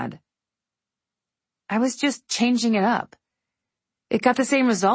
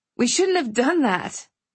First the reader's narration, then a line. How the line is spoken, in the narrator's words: I blurted